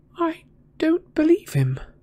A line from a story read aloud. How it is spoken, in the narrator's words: said Hermione in a very unsteady voice, the moment they were out of earshot of Hagrid